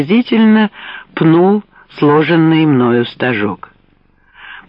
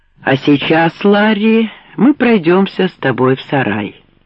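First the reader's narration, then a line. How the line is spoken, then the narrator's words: Very calm. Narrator (Russian): произнес он очень спокойно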